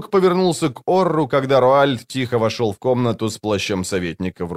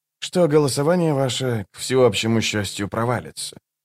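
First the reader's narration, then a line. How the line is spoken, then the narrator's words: Dry, curt over shoulder. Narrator (Russian): сухо бросил он через плечо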